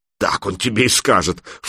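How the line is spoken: Scoffing snort. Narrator (Russian): фыркнула Алена

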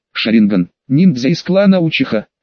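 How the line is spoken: Astonished exclamation. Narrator (Russian): Лидер деревни мастеров пристально вгляделся и тут же в изумлении воскликнул

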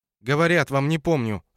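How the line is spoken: Irritated woman shouting. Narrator (Russian): раздраженно крикнула женщина

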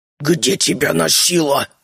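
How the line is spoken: Hissing. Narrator (Russian): прошипел Бертрам

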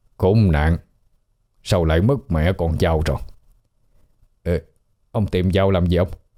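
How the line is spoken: Old man muttering. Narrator (Vietnamese): lão miệng lẩm bẩm

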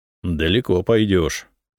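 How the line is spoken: Warrior's wry snort. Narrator (Russian): хмыкнул воин

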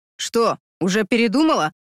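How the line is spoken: Snorting. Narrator (Russian): хмыкнул он

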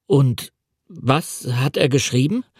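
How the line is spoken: Stammering. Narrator (German): stammelte

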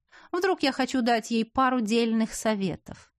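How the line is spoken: Mocking. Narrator (Russian): сказал насмешливо

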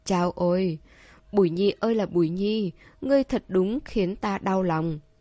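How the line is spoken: Feigned disappointed sigh. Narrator (Vietnamese): Khuôn Lâm Uyển cố tỏ vẻ như thất vọng, thở dài nói

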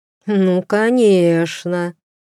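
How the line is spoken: Sarcastic drawl, king. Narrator (Russian): ехидно протянул король

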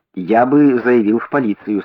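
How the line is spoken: Plain. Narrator (Russian): сказал я

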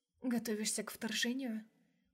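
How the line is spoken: Soft smirking laugh. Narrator (Russian): Усмехнулась тихо

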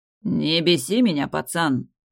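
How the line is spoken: Growling. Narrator (Russian): прорычал Дрейк

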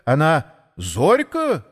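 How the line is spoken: Loud interruption. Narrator (Russian): громко перебил кто-то

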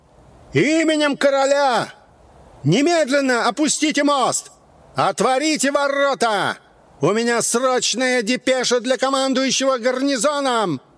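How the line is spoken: Full-chested bellow. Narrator (Russian): набрал в грудь воздуха, вскинул подбородок и заорал

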